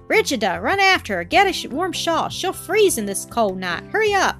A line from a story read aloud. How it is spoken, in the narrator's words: The old woman frantically called out